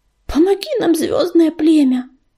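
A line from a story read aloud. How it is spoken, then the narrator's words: Breathed out. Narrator (Russian): выдохнул он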